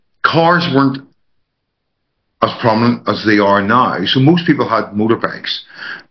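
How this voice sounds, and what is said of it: Northern Irish accent. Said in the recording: “I grew up in Northern Ireland, as you can tell by my accent.”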